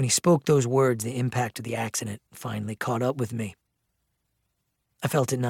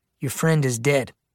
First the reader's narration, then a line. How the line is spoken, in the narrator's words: said coldly